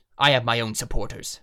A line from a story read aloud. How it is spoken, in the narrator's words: Vevin snarled